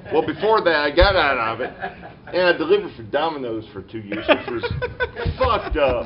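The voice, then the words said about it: Rural backwoods American accent. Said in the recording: “Can you not tell from the accent? ... I'm definitely backwoods.”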